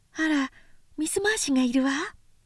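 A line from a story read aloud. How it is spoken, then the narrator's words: Muttering. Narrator (Japanese): とつぶやいた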